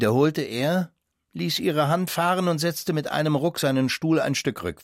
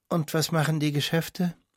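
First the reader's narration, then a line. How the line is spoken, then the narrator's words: Asked after laughter and sigh. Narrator (German): Sie lachte so herzlich wie seit langer Zeit nicht mehr, brach dann aber mit einem Seufzer ab und fragte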